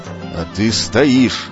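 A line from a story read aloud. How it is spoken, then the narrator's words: Hissed through teeth. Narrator (Russian): сквозь зубы процедил Иолай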